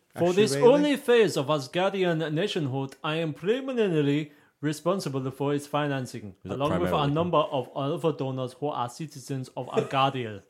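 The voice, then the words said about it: Put-on mixed Russian-Swedish accent. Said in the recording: “that accent was 60% Russian, 30% Swedish, and what's that? That's, that's 90. And 10% moon.”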